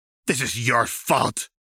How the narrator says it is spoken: Jinx snarled

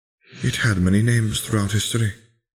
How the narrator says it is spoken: Helena sighed

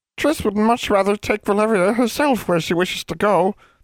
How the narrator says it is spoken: the house elf whimpered

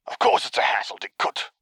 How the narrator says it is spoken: hissed

